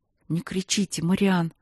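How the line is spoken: Whispered request. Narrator (Russian): шепотом попросила девушка

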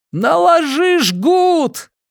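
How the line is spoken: Shout. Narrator (Russian): крикнул

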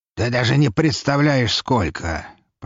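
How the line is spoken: Grumbling. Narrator (Russian): проворчал Броницкий

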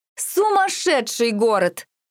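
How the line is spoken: Sudden loud laughter. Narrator (Russian): вдруг захохотала От

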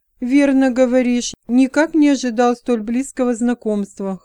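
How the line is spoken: Chuckling. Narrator (Russian): хохотнул Эван

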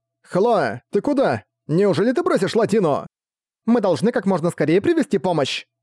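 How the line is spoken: Girl shouting back. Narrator (Russian): Прокричала в ответ девочка

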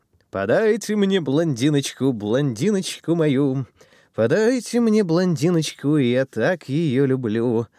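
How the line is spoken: Loud singing. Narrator (Russian): громко распевал Ван Суровак

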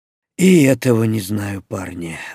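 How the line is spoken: Elder's sigh. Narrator (Russian): вздохнул старшой

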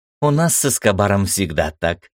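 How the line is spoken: Cheerful, smiling. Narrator (Russian): весело улыбнулась Ира

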